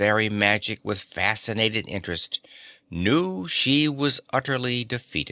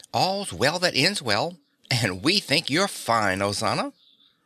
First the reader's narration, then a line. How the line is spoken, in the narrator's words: said Dorothy happily